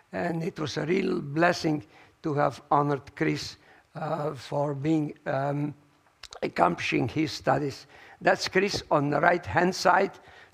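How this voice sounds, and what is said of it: Voice weakening, hoarse. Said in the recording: “my voice is going down. Because of the cold weather here”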